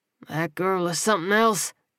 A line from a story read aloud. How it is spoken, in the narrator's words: he muttered